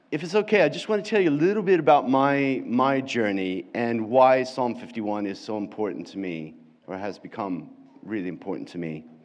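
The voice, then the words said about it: American accent. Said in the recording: “as you can probably guess from my accent, hopefully I'm not taking on too much an English accent ... you could probably still tell that I'm American”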